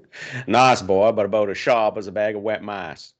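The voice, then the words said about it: Put-on Southern accent. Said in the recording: “That's more Foghorn Leghorn and less Waterboy. ... The Canadian has the better southern accent.”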